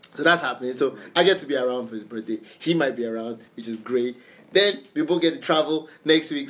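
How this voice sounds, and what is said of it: Excited, very fast speech. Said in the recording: “I don't know if you can tell in my voice. I'm talking real fast.”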